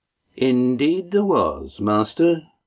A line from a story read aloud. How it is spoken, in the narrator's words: Mirak agreed smoothly